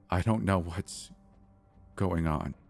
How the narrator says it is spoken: I stammered halfway through my sentence

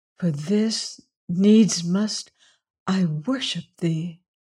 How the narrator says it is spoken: whispered

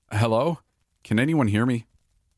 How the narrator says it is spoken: I called out with a trembling voice

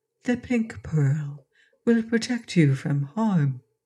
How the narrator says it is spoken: murmured the voice, soft and low but very distinct

